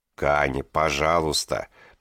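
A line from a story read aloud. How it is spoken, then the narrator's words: Worried hiss. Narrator (Russian): прошипел обеспокоенный Нала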